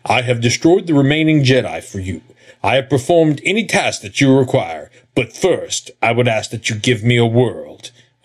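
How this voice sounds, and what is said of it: Darth Vader impression. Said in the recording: “my Vader impersonation.”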